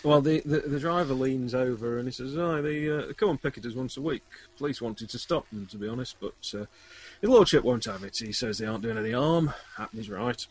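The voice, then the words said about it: Attempted Yorkshire accent. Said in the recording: “That wasn't a Yorkshire accent. It wasn't an attempt at a Yorkshire accent.”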